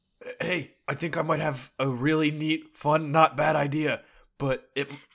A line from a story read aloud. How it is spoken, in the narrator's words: whisper